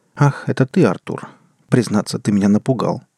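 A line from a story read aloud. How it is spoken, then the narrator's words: Friendly tone. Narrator (Russian): приветливым тоном произнес Константин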